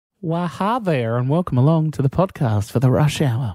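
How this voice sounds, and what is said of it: Put-on camp Texan-sounding voice. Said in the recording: “that voice you just threw out there ... Sounds a little bit from Texas, but we're also a little bit camp.”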